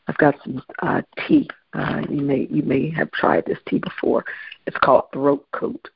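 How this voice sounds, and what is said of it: Tired, slightly weak voice. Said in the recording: “excuse my voice. My voice is just a little tired, just a little weak. It's not that I just woke up. Sometimes I sound like this because I just woke up”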